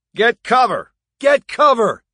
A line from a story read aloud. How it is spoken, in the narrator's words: he yelled at Haney